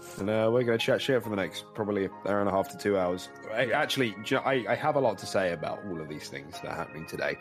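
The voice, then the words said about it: Cracking, congested, crackly voice. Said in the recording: “I have a crackly throat... I have like a dry winter cough... I've got a bit of stuffy nose... every now and then my throat is cracking... my voice is cracking, like, you know, when you're in puberty”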